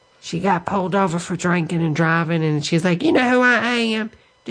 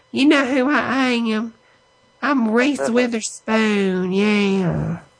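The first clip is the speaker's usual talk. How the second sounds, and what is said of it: Fake Southern accent. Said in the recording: “with that fake southern accent”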